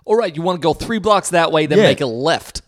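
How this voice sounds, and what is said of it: Put-on New York accent, authoritative. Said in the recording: “such a New York, like it almost sounded like a Boston kind of accent ... I hear their accent ... they'd say it with so much fucking authority”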